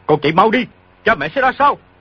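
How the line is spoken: Shouted. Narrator (Vietnamese): quát

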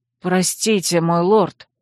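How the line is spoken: Apologetic mumble. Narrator (Russian): пробормотал Линувель

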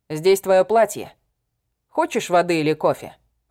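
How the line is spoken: Snorting. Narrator (Russian): Хмыкнул он

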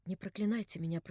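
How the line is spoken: Hurried whisper. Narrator (Russian): прошептала наскоро Катя

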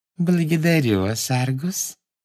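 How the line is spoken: Sugary sweet voice. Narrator (Russian): сладким голоском сказала она

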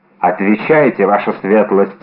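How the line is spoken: Plain. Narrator (Russian): сказал Фельтон

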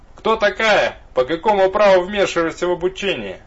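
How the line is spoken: Furious roar. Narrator (Russian): Разъяренным мамонтом взревел капитан

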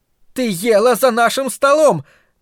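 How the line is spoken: Sudden shout. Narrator (Russian): неожиданно крикнула Карла

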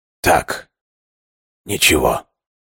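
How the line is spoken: Quiet reply. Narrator (Russian): тихо ответил

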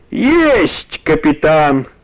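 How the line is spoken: Cheerful bark. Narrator (Russian): гаркнул Иван Гермогенович, весело

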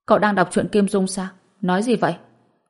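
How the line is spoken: Angry. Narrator (Vietnamese): Hàn Đồng tức giận nói

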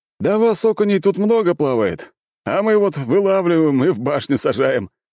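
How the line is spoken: Soldiers chuckling. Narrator (Russian): хохотнули бойцы

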